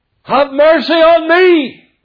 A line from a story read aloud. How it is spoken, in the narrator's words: he cried out